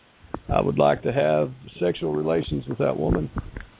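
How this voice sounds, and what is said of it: Bill Clinton impression. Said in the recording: “good Bill Clinton impression? ... That was real good.”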